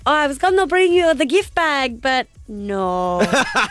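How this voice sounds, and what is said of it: Sofia Vergara impression, Latina accent. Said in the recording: “It actually did sound quite a bit like Sophia Vergara... you were impersonating Sophia Vergara quite well.”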